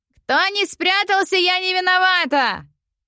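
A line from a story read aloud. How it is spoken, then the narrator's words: Booming shout. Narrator (Russian): Зычным голосом кричала Марья Васильевна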